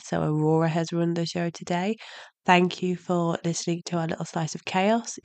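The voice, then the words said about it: Hoarse, nearly lost voice. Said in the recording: “As you can hear, my voice is nearly gone”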